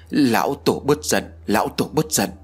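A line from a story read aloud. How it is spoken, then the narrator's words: Trembling, fearful. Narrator (Vietnamese): giọng điệu run rẩy nói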